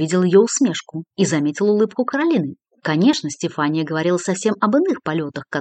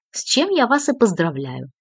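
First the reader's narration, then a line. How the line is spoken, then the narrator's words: Cheerful reply. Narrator (Russian): весело откликнулась Стефания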